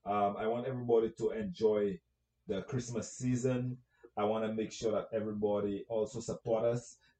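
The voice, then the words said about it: St. Lucian accent. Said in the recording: “You have my accent. You know where I'm from. I'm from St. Lucia”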